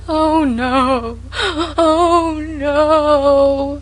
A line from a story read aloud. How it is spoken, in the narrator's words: wailed Sarah Ray lugubriously